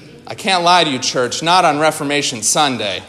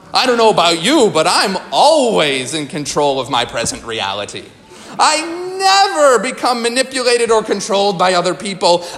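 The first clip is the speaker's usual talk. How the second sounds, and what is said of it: Sarcastic delivery. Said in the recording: “I'm being sarcastic.”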